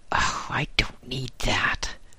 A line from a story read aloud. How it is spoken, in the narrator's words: whispered a voice as dry as dust